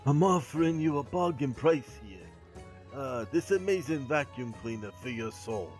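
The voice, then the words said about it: Put-on Jewish accent, goblin trader. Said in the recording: “You sounded like a goblin trader ... That wasn't my Brooklyn accent. That was my Jewish accent. ... That was horrible.”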